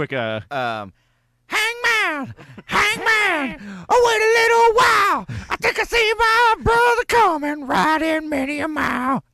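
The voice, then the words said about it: Sung imitation of a rock singer. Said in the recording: “Robert Plant impersonation ... Really so good. That's one breath away from just being a Brian Johnson impersonation from AC/DC.”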